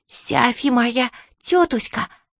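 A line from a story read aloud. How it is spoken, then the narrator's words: Sweet lisping little boy. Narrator (Russian): сладеньким голосом прошепелявил маленький мальчик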